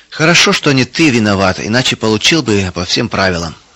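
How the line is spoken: Stern father. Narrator (Russian): строго сказал отец

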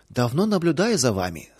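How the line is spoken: Plain. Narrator (Russian): сказала она

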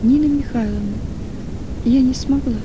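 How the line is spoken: Quiet reply. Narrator (Russian): ответила тихо Маргарита

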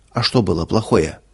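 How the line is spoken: Plain. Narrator (Russian): спросила Ирма

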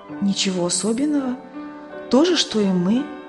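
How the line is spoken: Plain. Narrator (Russian): ответила мать

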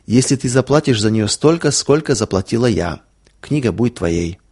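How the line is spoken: Plain. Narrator (Russian): сказала она наконец

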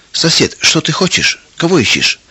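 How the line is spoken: Calm, puzzled. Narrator (Russian): Трофим Семенович, ничего не понимая, спокойно спросил

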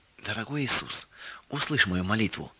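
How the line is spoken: Sobbing whisper. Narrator (Russian): всхлипывая, прошептала она

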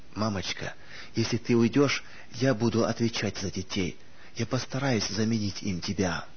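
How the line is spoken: Restrained comforting whisper. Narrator (Russian): Сдерживая стон, готовый вырваться из груди, Анита наклонилась над матерью и, стараясь утешить ее, прошептала

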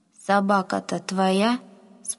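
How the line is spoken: Plain. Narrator (Russian): спросил он

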